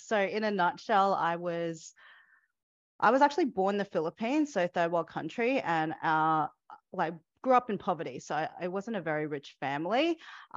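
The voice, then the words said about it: Australian accent. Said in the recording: “hence the Australian accent”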